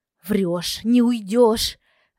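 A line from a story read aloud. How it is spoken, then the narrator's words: Growling. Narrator (Russian): рыкнула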